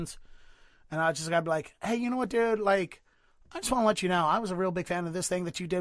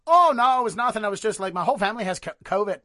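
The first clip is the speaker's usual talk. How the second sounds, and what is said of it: Weird Irish accent impression. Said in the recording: “Now I'm doing like a weird Irish accent for Jim Jefferies. I'm not an impressionist”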